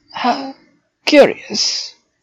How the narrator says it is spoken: he muttered

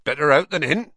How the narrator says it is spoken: he said cheerfully

